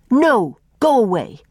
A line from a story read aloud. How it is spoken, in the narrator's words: snapped Faith